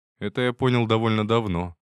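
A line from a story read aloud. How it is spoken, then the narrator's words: Snorting. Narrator (Russian): хмыкнул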